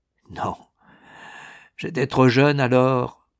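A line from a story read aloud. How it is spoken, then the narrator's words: Murmuring. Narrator (French): il murmura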